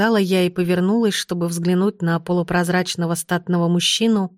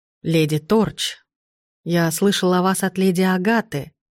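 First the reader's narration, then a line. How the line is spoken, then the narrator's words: Muffled reply. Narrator (Russian): глухо ответил он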